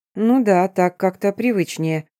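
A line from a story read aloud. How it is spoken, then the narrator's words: Through teeth, hiding trembling. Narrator (Russian): процедила я, стараясь скрыть внезапно пробившую меня дрожь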